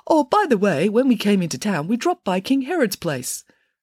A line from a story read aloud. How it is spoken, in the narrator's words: the third king piped up and said